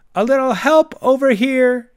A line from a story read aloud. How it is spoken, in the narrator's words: she cried, not quite disguising her disgust